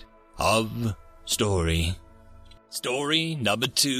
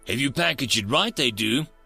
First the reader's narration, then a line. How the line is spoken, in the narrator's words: Susan said cheerfully